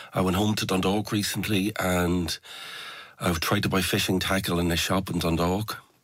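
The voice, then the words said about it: Generic, softened Irish accent. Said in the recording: “rounded my accent off at the edges ... I have this sort of very sort of generic smooth at the edges Irish accent.”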